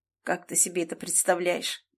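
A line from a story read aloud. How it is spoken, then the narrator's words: Bitter snort. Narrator (Russian): Он горько хмыкнул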